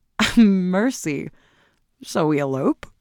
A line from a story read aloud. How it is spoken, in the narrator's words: laughed